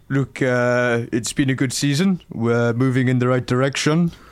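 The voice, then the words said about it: Character voice with an accent. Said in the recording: “he has got a bit of an accent.”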